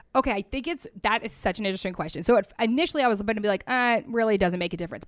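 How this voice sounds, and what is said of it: Speaking with vocal fry. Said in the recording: “my vocal fry you will all be commenting about”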